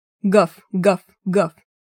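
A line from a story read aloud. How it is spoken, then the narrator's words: Hoarse bass barking. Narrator (Russian): лаял он хриплым басом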